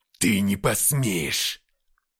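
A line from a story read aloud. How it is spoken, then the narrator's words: Growl. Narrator (Russian): прорычал Деймос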